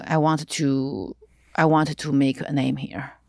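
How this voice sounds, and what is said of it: Non-native English accent. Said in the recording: “my accent has been a problem because nobody told me you have to speak English to audition ... they always had a problem with my accent to play a girl who was born in America”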